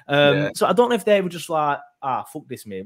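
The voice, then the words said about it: Put-on regional accent. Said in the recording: “I don't know why I'm trying to do an accent.”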